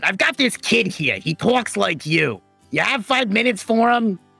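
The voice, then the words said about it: Put-on accent, strained voice. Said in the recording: “I can't keep the accent up. I'll lose my voice.”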